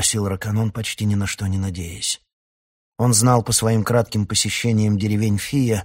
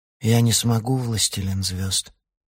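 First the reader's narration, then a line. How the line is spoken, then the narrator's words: Sad. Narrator (Russian): печально сказал он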